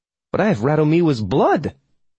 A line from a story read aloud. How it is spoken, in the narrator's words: I spluttered